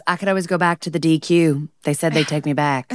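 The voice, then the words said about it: Imitates a film character's voice. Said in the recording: “That was an amazing impression.”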